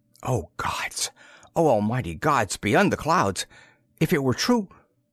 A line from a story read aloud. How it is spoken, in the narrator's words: His voice shook